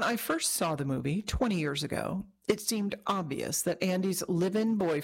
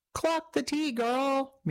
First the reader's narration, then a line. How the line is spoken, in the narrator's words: Mira cried when Andy criticized Nate for being unsupportive